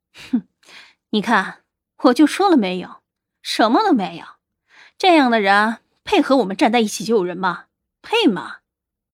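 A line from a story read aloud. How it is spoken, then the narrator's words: Cold sneer. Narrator (Chinese): 广兴之子冷笑着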